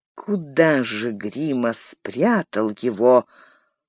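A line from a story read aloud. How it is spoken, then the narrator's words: Confused mutter. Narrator (Russian): пробормотал растерянно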